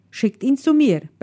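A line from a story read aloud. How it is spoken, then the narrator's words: Barking. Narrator (German): bellte er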